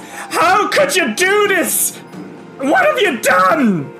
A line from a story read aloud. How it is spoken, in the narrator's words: shrieks and says